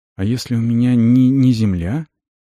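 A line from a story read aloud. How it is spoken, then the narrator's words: Uncertain teen question. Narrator (Russian): неуверенно спросил подросток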